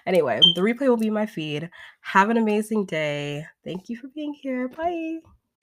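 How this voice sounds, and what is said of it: Strained, nearly lost voice. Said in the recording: “look at me, I'm about to lose my voice.”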